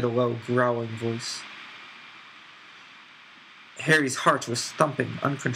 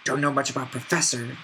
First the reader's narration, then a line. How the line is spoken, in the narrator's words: growled the voice